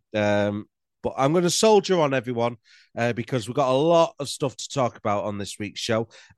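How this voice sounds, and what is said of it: Congested, nasal-sounding voice. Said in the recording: “I've got a cold. So if I'm talking a bit like Frank Sidebottom, that's why.”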